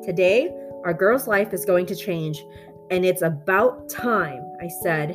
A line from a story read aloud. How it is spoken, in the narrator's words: Hank exclaimed